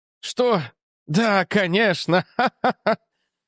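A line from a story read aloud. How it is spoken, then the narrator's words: Nervous laughter. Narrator (Russian): Нервно рассмеялся Энтони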